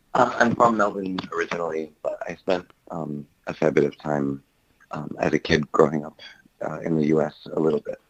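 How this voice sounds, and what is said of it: American-tinged accent. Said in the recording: “I'm picking up an accent... going to school in the US, you got an accent”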